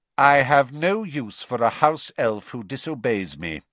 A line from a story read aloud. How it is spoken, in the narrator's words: he said coldly